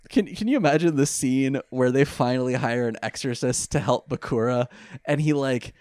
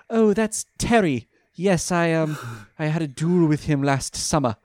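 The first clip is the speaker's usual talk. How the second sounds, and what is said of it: Put-on British accent. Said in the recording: “Let me do the British accent.”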